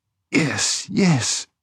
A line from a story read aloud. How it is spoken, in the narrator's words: murmured doubtfully